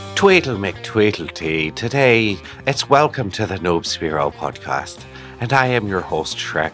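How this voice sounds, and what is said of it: Put-on Irish accent. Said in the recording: “That's my absolute best Irish accent.”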